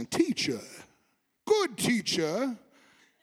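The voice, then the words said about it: Put-on English accent. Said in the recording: “I always picture like a play like he has an English accent.”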